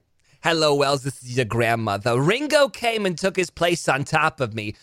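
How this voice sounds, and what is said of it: Old grandmother character voice. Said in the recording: “I think I like your grandma voice better ... grandma reading the erotic novel”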